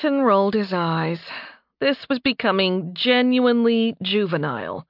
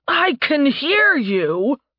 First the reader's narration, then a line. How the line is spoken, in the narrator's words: Tarbin shouted